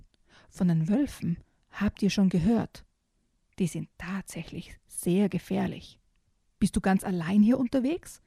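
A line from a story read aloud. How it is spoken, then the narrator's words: Plain question. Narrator (German): fragt schließlich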